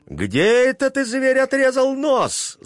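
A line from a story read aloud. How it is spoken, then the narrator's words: Angry shout. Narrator (Russian): закричала она с гневом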